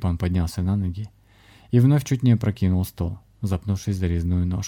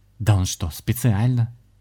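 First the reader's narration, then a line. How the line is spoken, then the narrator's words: Indignant. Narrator (Russian): возмутился Дима в Междумирии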